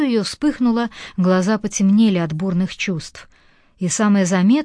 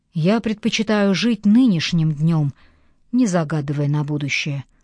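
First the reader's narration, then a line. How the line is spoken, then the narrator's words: Calm male voice. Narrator (Russian): спокойно сказал он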